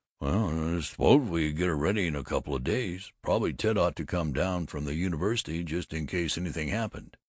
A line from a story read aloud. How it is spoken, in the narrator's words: He mumbled